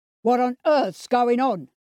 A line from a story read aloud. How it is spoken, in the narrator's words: he bellowed